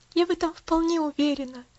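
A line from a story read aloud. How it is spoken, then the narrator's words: Sigh with quiet joy. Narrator (Russian): вздохнула Пуляна, глаза ее светились тихой радостью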